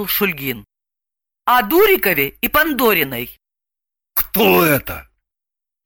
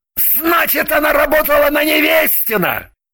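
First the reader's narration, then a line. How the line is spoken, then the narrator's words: Triumphant shout. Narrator (Russian): закричал он, торжествуя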